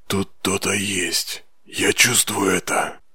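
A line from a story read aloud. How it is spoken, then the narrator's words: Whisper. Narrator (Russian): прошептал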